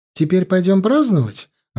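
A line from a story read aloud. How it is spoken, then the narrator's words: Joyful question. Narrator (Russian): радостно спросила Джоан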